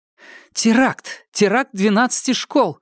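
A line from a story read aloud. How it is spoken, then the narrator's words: Cried out. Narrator (Russian): вскрикнула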